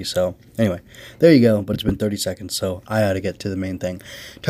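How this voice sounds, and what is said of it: Strained voice, speaking low. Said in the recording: “my voice is not doing well, so I've got a lozenge ... preserve my voice, so I'm kind of going to keep it down low”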